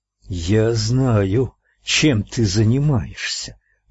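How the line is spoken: Hissed. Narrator (Russian): прошипел он

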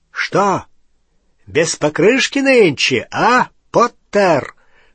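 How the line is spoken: Shouted. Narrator (Russian): выкрикнул

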